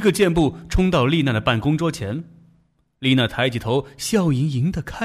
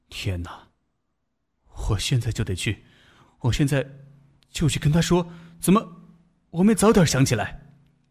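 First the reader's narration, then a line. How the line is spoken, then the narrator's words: Muttering to himself. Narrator (Chinese): 他喃喃自语道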